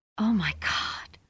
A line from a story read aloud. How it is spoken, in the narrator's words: Rosie whispered